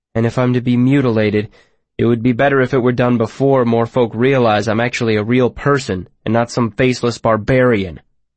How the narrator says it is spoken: I said harshly, though not as harshly as I wanted to

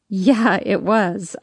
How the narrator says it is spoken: I laugh

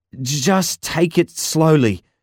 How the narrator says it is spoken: I stammered, as a shiver passed through my body

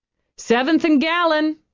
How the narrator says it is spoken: the driver called out

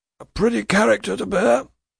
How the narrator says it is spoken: a trooper growls with a hasty oath

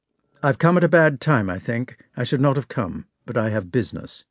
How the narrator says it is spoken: he said coldly

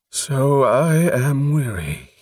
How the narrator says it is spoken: he breathed

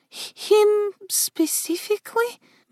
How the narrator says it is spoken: Melody murmured

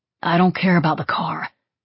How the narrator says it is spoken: he said quietly

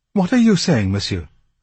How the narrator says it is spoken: asked the girl excitedly

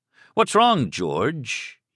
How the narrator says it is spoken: he jeered suddenly

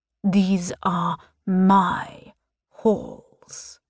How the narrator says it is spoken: he hisses

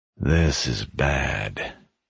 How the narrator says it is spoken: he muttered to himself

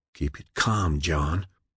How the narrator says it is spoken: Ed whispered

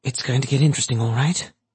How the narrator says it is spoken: she muttered

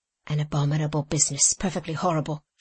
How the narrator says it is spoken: she exclaimed

